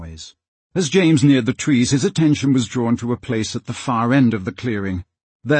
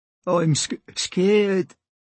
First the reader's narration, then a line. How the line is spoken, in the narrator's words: said Prentice, his voice shaking